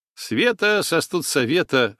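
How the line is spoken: Snorting. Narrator (Russian): хмыкнул Гена

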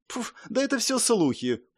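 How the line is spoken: Contemptuous snort. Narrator (Russian): презрительно фыркнула Диана

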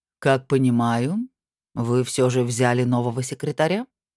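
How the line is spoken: Dean's lazy question. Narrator (Russian): лениво спросил декан нечистоведов

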